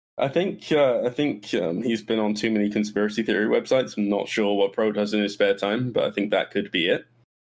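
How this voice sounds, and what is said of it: English accent. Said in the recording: “you have a slight accent ... my English accent”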